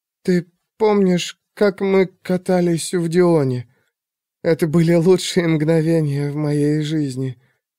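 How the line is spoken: Hoarse whisper. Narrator (Russian): хрипло шептала Пандора

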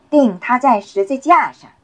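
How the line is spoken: Shouting. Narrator (Chinese): 他们又喊说

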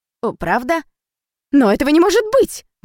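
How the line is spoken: Exclaiming. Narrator (Russian): воскликнула фрау Пеньковский

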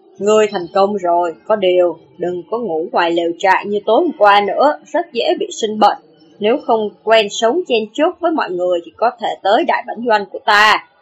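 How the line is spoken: Loud, then lowered voice. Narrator (Vietnamese): Lưu Trọng Thiên lớn tiếng tuyên bố, hạ giọng nói

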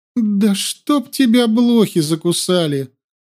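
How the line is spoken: Moaning. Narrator (Russian): простонала она

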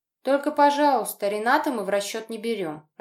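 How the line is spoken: Laughing loudly. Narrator (Russian): расхохоталась подруга

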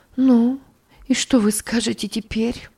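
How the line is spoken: Sighing woman. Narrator (Russian): вздохнула она

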